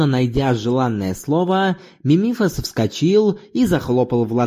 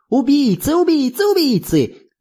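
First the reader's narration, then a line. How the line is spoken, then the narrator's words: Shrieking, then laughing. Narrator (Russian): завизжал он и захохотал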